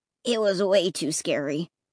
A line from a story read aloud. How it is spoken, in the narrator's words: Clay murmured